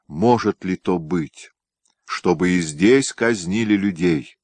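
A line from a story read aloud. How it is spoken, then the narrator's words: Plain. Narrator (Russian): сказал он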